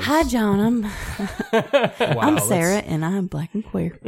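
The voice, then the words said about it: Imitates another person's voice. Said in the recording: “your black queer impression ... That's her mom's voice.”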